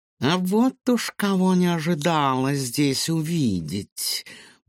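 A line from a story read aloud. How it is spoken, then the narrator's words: Purring cat. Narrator (Russian): промурлыкала кошка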